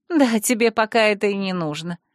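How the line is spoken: Laughing. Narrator (Russian): засмеялась подруга

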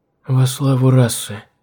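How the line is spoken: Soft whisper. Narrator (Russian): тихо прошептала Адельхейд

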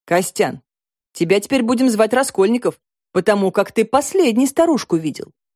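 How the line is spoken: Smirking chuckle. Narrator (Russian): хмыкнул главврач клиники доктора Воронцова

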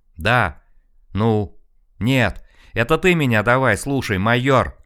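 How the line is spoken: Shouted. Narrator (Russian): закричал Колян

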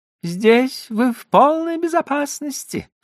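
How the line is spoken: Thin high voice. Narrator (Russian): сказал Жильбер тонким голосом

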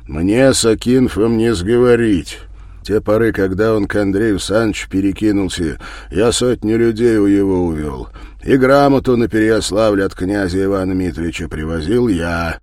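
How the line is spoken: Loud stern reply. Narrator (Russian): Осуровив лицом, громко, гася улыбки, бояр отмолвил

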